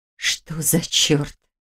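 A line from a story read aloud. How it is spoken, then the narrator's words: Breathed out. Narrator (Russian): выдохнула Ольга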